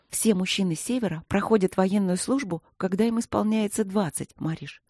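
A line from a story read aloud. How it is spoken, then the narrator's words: Whispered reply. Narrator (Russian): шепотом ответила Василина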